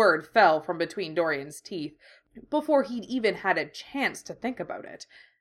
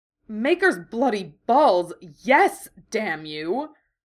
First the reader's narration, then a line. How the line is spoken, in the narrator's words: Dorian snarled